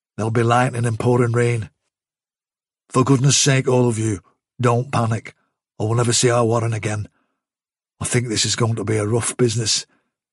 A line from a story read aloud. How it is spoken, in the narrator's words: he added quietly